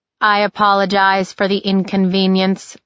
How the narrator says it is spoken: it said in a perfect monotone meant to convey a diplomatic lack of bias

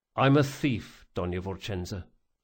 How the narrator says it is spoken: he said quietly

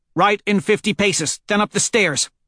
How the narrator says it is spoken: Holiday snaps

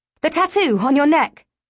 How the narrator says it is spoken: I shout at Mazin's retreating back

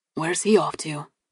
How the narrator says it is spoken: Dad asked quietly

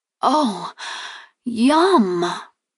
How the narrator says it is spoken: I exclaimed as I chewed

